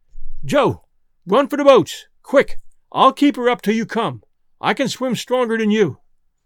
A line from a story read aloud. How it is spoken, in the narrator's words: he cried out